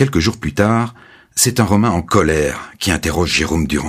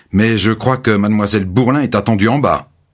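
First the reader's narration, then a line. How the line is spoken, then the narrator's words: Stern tone. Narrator (French): dit d'un ton sévère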